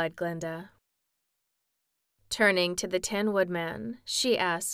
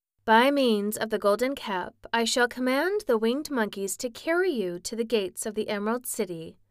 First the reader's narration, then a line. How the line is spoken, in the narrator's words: said Glinda